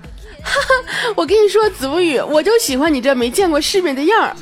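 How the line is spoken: Hearty laughter, not angry. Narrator (Chinese): 军良居然也没有生气啊，哈哈大笑起来，说

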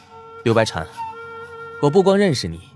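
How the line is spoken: Sudden smiling. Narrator (Chinese): 易潇突然展颜笑道

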